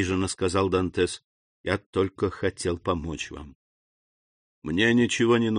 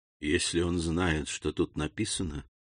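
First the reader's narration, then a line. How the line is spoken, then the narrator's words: Whisper. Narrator (Russian): прошептал он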